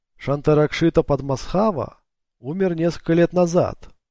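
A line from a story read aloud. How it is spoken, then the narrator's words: Happy voice. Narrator (Russian): счастливым голосом продолжил Дин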